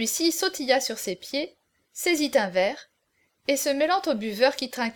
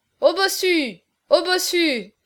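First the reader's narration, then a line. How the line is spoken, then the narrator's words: Laughing chorus shout. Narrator (French): cria le cœur en riant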